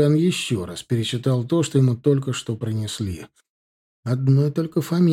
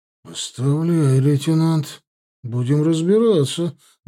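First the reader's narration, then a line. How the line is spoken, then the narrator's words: Composed, restrained. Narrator (Russian): взяв себя в руки, ответил Баринов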